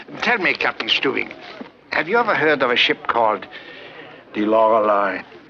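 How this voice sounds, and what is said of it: Put-on German accent. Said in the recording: “his voice is everywhere, even with this German accent.”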